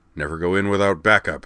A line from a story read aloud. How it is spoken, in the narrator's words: Lorg grunted